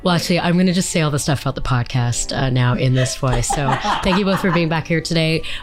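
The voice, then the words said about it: Hoarse, husky laryngitis voice. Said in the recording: “laryngitis voice ... Kathleen Turner sexy voice”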